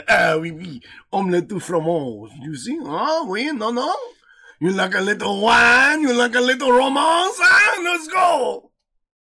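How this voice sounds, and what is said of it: Exaggerated stereotypical French accent. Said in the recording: “my French accent comes from George St. Pierre, who's Canadian, and Pepe Le Pew from Looney Tunes ... That's the American version of a French accent”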